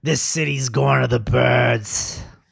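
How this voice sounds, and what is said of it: New York accent. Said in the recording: “You got to do it in a New York accent though. ... See, that's good. That's good. ... We'll leave the impressions to you”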